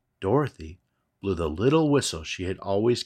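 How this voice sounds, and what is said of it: Usual voice. Nothing is said of it.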